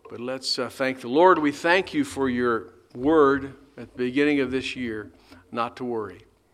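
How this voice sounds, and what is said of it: Raspy voice. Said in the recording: “My voice is getting raspy,”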